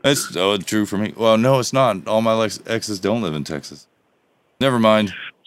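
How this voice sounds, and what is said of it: Texas accent. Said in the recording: “Now your accent's coming out ... You got Texas going on.”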